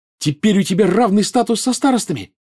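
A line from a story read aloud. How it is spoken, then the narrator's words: Joyful exclamation. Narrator (Russian): радостно воскликнула Гермиона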